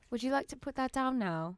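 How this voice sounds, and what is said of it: Bad put-on British accent. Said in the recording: “That's the worst British accent I've ever heard.”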